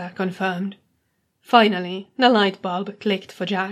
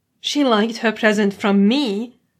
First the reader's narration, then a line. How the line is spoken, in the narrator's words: exclaimed